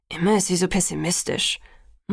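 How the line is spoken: Murmured. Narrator (German): murmelte Emmett

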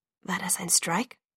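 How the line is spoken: Whispered. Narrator (German): flüsterte

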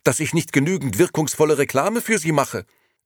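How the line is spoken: Angry reply. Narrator (German): erwiderte die Dame nun ebenfalls wütend

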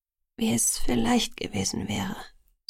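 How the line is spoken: Sighing. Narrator (German): sagte ich und seufzte

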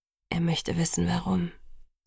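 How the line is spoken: Quiet. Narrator (German): sagte Edward leise

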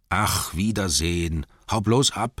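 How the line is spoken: Annoyed dwarves grumbling. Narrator (German): knurrten die Zwerge, die sich umso mehr ärgerten, weil es sie in Wirklichkeit davor graute, ohne ihn auskommen zu müssen

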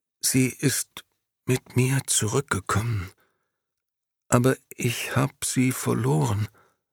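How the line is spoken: Barely conscious stammering. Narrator (German): Momo, kaum noch bei Bewusstsein, stammelte

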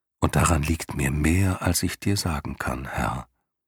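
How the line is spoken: Gentle. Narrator (German): meinte sie sanft

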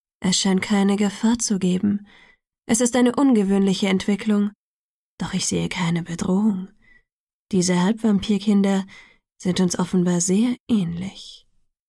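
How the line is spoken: Gentle. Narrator (German): sagte er sanft zu Caius

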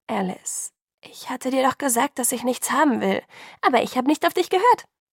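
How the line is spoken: Cheerful interruption. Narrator (German): unterbrach fröhlich

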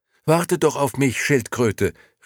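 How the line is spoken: Soundless call. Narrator (German): rief Momo, aber sonderbarerweise konnte sie ihre eigene Stimme nicht hören

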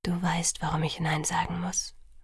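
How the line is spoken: Whisper. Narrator (German): flüsterte er

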